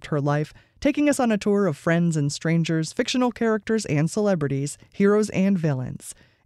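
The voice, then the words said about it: Polished radio announcer voice. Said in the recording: “your very perfect radio voice”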